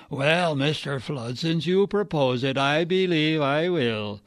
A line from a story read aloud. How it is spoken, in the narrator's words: answered huskily